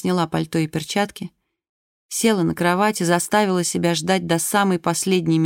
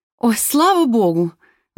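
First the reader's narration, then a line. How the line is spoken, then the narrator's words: Exclaiming. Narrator (Russian): воскликнула она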